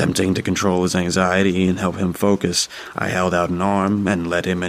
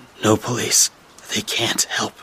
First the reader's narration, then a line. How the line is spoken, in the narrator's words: he … whispered